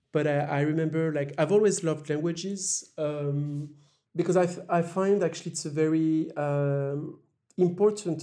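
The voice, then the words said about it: Strong French accent in English. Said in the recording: “I still speak English with a very strong French accent”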